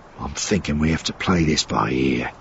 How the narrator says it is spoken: he said quietly

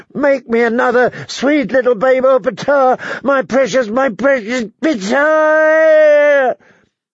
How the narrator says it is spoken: Her last shriek was so loud

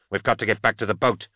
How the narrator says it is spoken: Kiss barked

